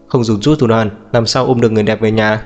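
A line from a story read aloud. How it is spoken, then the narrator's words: Bursting into laughter. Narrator (Vietnamese): Diệp Uyên cười phá lên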